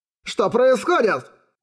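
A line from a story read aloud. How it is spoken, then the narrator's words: Yell. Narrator (Russian): заорал техник первого класса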